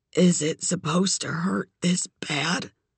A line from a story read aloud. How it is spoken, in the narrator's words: croaked